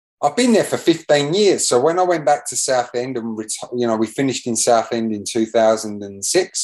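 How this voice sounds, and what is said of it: English accent with slight Australian twang. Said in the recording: “there's a little bit of an Australian twang in your accent these days”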